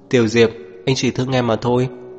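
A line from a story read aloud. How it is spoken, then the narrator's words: Lowered voice. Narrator (Vietnamese): anh ấy mới hạ giọng nói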